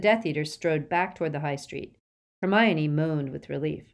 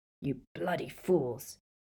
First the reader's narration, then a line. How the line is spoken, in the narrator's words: he said gruffly